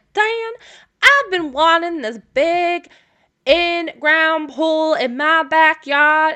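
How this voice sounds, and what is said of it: Put-on country accent. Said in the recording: “I'm going to give Lilith the country accent.”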